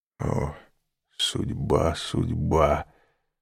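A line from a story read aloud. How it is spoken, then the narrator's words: Whispered. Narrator (Russian): прошептал аббат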